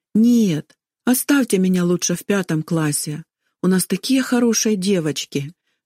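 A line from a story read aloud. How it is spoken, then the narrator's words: Tearful plea. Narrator (Russian): жалобно попросила она, и на ее глазах заблестели слезы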